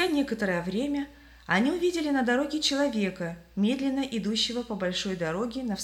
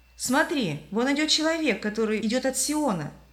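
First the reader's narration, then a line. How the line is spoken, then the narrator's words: Exclaimed in surprise. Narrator (Russian): удивленно воскликнул христианин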